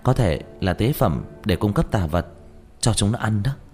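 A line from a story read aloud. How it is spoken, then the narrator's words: Puzzled whisper. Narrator (Vietnamese): Diệp Thiếu Dương không hiểu thì thào nói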